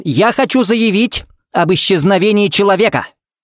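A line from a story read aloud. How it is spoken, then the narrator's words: Barked. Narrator (Russian): рявкнул Смит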